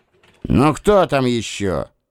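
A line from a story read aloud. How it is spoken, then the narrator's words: Irritated bark. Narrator (Russian): недовольно рявкнул я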